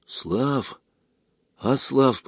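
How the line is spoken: Whisper. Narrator (Russian): прошептал Мишка

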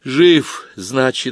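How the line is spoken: Sighing. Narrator (Russian): вздохнула Галка

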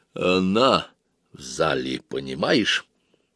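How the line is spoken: Quiet. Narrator (Russian): тихо проговорил Помреж

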